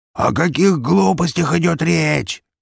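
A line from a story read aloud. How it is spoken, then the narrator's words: Squealing hog. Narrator (Russian): взвизгнул хряк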